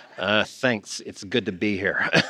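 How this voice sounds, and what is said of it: Awkward Butthead impression. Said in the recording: “did a Butthead impression ... I went super awkward”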